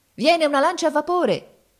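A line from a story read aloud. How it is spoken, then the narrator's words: Shouted. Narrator (Italian): gridava uno di noi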